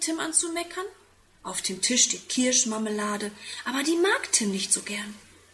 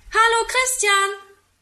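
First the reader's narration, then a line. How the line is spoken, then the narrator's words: Calling from window. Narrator (German): ruft er aus dem Fenster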